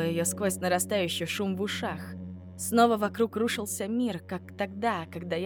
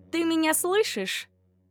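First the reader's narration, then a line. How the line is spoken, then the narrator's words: Irritated question. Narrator (Russian): раздраженно спросила Ирен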